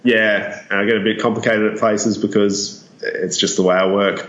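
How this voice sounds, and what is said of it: Australian accent. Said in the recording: “sorry for my Australian accent and any of my Australianisms”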